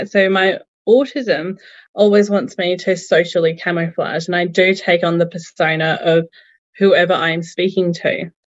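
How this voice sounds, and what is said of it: Fairly strong Australian accent. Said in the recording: “I do have quite an Australian accent, or so I've been told.”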